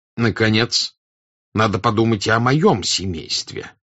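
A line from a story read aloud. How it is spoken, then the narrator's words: Angry continuation. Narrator (Russian): сердито продолжал князь Василий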